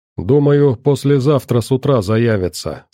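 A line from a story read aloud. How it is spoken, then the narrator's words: Plain. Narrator (Russian): сказал Рогов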